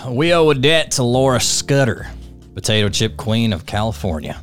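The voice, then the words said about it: Put-on Southern accent. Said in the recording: “You want me to read this one in a Southern accent? ... I'll do a Southern accent.”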